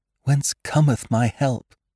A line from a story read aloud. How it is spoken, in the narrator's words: In her extremity, murmuring